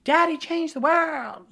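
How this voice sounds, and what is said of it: Imitates another person's voice. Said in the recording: “that was my impression of her”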